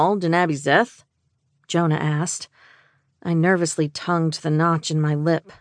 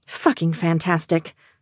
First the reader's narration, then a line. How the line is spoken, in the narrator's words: Jamie muttered